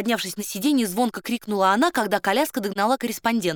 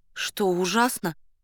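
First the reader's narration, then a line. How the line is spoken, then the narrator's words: Asked in dejected voice. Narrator (Russian): упавшим голосом спросила она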